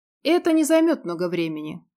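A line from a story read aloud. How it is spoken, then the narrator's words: Joyless snort. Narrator (Russian): как-то невесело хмыкнул Клин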